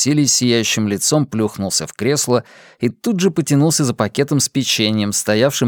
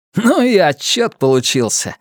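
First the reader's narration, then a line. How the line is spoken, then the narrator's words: Cheerful announcement. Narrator (Russian): радостно сообщил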